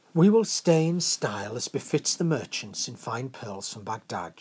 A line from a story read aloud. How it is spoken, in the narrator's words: smiled sweetly